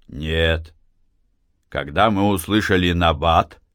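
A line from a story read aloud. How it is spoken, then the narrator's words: Continued calmly. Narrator (Russian): продолжал спокойно Матвей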